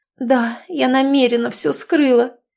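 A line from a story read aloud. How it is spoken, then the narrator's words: Moaning. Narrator (Russian): простонала Ирина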